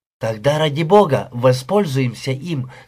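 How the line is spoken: Plain. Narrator (Russian): сказала Пэм

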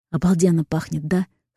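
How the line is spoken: Whispered question. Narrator (Russian): спрашивает шепотом Кир

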